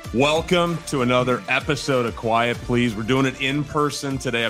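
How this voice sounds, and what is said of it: Polished radio announcer voice. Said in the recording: “You got a great radio voice.”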